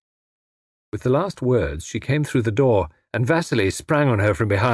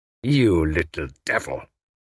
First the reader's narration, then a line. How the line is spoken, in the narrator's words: he snarled